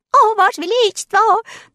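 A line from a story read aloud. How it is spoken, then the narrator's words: Squeaking over each other. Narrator (Russian): наперебой запищали они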